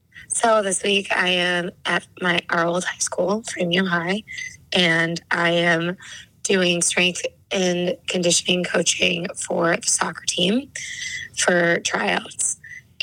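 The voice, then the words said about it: Raspy voice. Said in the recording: “why my voice is so raspy, because I am not used to doing big groups”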